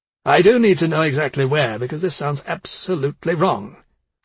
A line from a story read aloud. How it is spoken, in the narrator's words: Steinberg said, in a surprisingly sharp tone